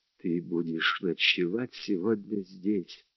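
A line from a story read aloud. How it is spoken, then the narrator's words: Whisper. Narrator (Russian): прошептала она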